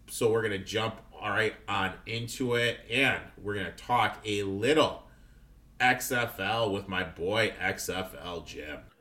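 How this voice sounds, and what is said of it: Slightly scratchy, rough voice. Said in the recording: “sorry about my voice. My voice is a little bit scrappy, a little bit rough.”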